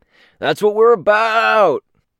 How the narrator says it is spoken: shouts

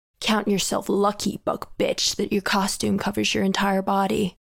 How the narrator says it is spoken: Panacea murmured to me

